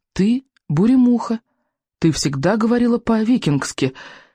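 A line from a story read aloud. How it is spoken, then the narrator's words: Stammering reply. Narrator (Russian): заикаясь, ответила Камикадзе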